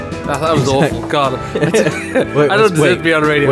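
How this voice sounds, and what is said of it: Usual voice. Nothing is said of it.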